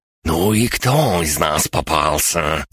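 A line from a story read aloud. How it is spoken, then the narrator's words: Gloating hiss. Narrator (Russian): злорадно прошипел Борис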